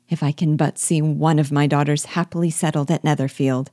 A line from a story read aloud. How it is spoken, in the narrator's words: said Mrs